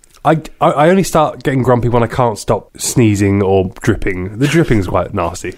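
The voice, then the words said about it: Congested, stuffy voice. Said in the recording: “I've been sneezing a lot, and You can probably hear in my voice, I'm not quite my normal lovely self.”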